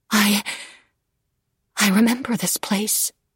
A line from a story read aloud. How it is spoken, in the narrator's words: she breathed